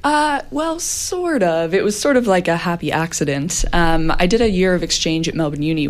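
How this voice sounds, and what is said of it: Non-Australian English accent. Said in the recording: “your accent isn't Australian”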